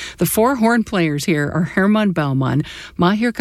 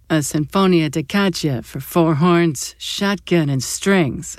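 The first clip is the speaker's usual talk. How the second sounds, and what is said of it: Bad Chicago mob boss impression. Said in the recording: “said by a Chicago mob boss ... it's a terrible impression”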